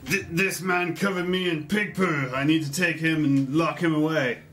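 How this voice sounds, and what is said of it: Put-on human character voice. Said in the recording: “He's going to, again, do his best human voice.”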